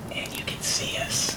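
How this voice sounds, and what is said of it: Whispering. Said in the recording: “I'm whispering a lot”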